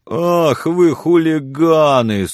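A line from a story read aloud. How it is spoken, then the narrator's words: Whining. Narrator (Russian): скулил парень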